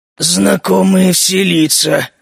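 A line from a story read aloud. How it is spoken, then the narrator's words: Gruff ogre muttering. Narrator (Russian): буркнул Огр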